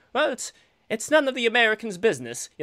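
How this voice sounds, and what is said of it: Imitated British accent. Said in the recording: “I'm going to try to say it like she said ... she had a bit of a British accent going on”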